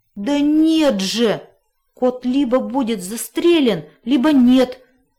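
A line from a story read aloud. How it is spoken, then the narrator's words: Desperate groan, dog. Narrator (Russian): простонал пес, в отчаянии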